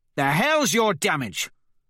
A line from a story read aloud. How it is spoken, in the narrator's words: Severo snarls at me